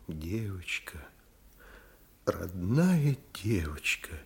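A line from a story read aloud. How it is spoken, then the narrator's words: Quiet, tender. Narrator (Russian): негромко выговорила Вера Никандровна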